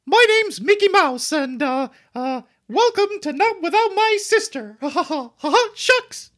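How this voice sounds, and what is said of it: Mickey Mouse impression. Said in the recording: “do your Mickey Mouse”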